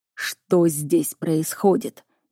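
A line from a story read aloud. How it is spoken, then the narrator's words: Barely restrained growl. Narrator (Russian): едва сдерживая себя, прорычал Миролан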